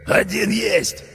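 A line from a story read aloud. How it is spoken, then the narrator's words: Hoarse rasping man. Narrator (Russian): прохрипел лысый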